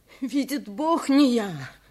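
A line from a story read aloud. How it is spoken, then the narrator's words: Sobbing repetition. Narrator (Russian): повторял, всхлипывая, бедняк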